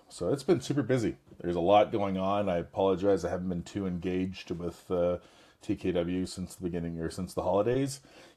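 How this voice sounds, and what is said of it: Slightly raspy voice. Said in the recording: “hear it in my voice. I'm a little raspy. ... recovering from a bug”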